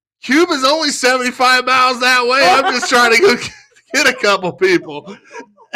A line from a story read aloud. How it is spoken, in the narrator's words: yelled back at him, and I said